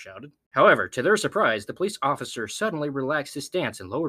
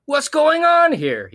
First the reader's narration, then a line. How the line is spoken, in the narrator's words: He asked, his voice shaking